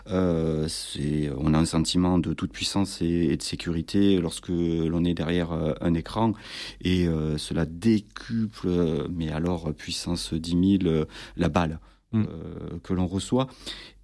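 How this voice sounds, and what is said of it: Toulouse southern French accent. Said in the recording (French): “pardon pour mon accent toulousain”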